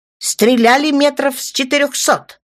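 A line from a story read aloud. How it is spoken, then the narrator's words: Duty officer shouting. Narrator (Russian): выкрикнул дежурный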